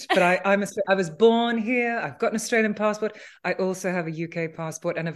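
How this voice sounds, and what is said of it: Unusual Australian-sounding accent. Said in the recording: “you've got an accent actually ... I do have a weird accent”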